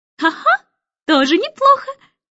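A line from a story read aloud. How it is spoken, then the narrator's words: Cheerful laughing. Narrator (Russian): Нелли Рубина весело рассмеялась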